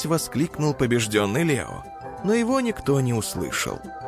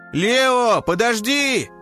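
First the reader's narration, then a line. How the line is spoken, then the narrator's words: Shout. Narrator (Russian): крикнул Тик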